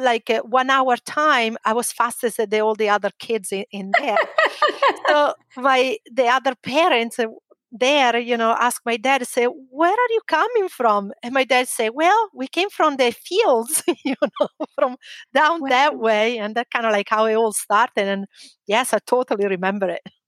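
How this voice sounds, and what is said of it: Italian accent. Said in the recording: “we do hear an accent ... I'm from Italy ... North Italy”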